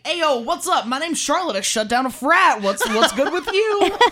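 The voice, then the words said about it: Put-on old-timey newsie accent. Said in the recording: “why do you have an accent when you do it though? ... Yeah, there was like, definitely ... yo, I turned into a newsie.”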